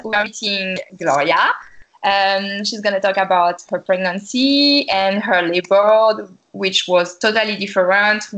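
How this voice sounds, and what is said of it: Non-native accent speaking English. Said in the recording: “Sorry for my bad accent.”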